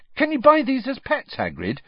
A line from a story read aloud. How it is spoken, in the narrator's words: he asked excitedly